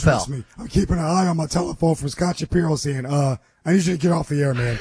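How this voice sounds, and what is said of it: Hoarse, strained laryngitis voice. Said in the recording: “Is this laryngitis? ... I have to adjust to how your voice is sounding.”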